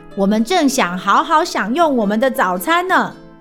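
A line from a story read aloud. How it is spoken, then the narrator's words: Squeaky insect voice. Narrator (Chinese): 瓢虫爸爸吱吱叫着说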